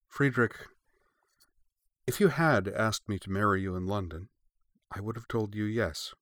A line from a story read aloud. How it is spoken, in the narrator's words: she said